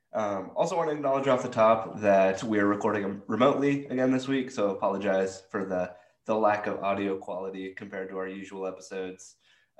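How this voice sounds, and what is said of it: Sick-sounding voice. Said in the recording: “as you might be able to tell from my voice, I'm a sick boy”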